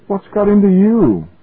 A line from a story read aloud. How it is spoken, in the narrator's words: asked Grants uneasily